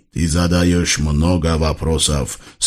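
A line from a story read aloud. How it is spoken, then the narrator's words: Muttered through clenched teeth. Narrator (Russian): сквозь зубы процедил воевода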